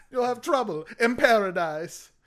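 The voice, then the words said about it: Jamaican accent imitating Kofi Kingston. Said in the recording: “Kofi Kingston comes out, and he's doing the Jamaican accent, man.”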